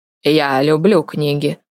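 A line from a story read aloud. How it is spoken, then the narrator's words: Muffled, hollow. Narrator (Russian): глухо ответил он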